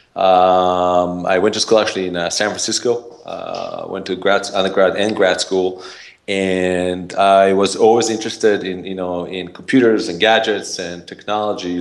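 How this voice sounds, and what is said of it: Israeli-accented English. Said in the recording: “I have an accent, originally from Israel”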